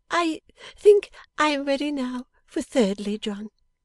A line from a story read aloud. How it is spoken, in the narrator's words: laughed a little when she said